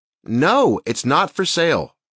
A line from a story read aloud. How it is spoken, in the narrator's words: I heard Taylor nearly shout